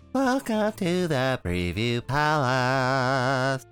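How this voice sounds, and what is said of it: Silly, squirrely character voice. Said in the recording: “Who is that guy? ... Squirrely. ... Silly voice.”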